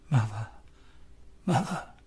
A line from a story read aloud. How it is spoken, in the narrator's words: In his weakness, he whispers